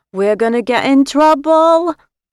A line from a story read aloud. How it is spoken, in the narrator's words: little Janet wailed